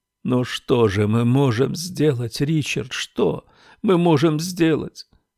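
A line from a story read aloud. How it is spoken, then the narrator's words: Sobbing. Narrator (Russian): Сквозь рыдания проговорила она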